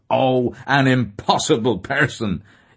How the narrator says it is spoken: he exclaimed

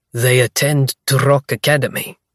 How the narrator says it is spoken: the guard on the left announces in his thick northern accent

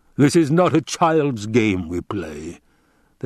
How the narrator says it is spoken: the Baron rumbled

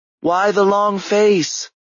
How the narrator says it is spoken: the little seamstress called out

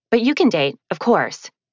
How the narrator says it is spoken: she added hastily

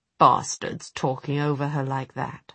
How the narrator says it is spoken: muttered Will

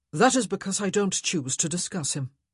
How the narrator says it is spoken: Simon said curtly

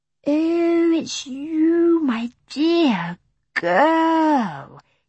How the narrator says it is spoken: he said sleepily

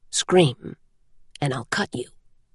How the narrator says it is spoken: he said quietly

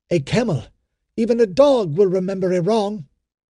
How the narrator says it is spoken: cried Ilderim

